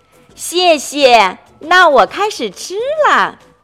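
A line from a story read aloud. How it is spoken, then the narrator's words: Children speaking loudly. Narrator (Chinese): 其他小朋友随后也都大声说道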